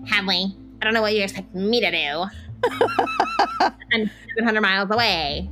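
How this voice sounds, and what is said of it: Imitates another person's voice. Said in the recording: “that was my impression of my mother ... It was really good. ... It was pretty spot on”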